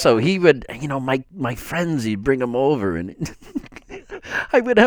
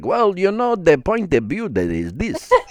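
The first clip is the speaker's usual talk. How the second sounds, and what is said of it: Broken English type accent. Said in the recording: “a broken English type accent”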